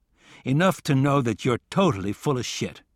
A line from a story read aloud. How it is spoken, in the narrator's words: I looked at him coldly and said